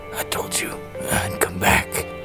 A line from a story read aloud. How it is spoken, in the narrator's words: he murmured